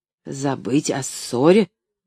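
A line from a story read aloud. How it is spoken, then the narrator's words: Indignant repetition. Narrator (Russian): возмущенно повторил доктор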